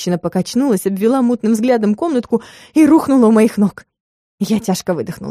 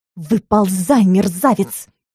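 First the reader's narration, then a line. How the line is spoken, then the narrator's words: Growl. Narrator (Russian): зарычала я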